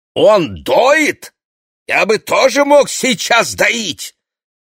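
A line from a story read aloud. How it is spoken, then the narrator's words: Deliberately loud shouting. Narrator (Russian): Он нарочно кричал так громко, в надежде, что Моше услышит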